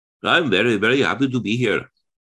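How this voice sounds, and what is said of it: Put-on Indian accent. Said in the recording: “people speak with an Indian accent”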